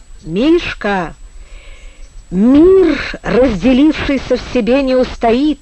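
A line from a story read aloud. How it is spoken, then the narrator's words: Mocking exclamation. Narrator (Russian): воскликнул, кривляясь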